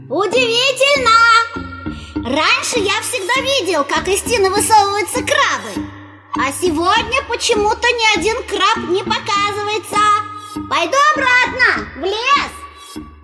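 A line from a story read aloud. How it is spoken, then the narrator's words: Loud calling out. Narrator (Russian): громко выкрикивать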